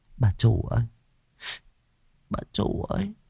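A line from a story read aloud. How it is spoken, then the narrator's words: Sigh. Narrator (Vietnamese): Nó thở dài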